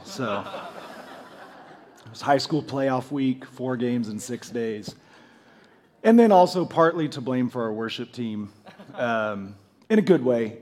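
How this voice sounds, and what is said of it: Hoarse, nearly lost voice, low. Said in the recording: “I am right on the edge of completely losing my voice ... It's going to be a little more NPR feel this morning, just kind of low and mellow”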